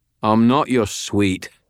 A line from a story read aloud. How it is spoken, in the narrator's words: Binder said, his voice annoyed